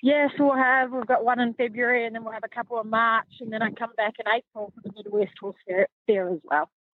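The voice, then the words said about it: Pleasant foreign accent. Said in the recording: “I could listen to her all day long. I really could. I love that accent.”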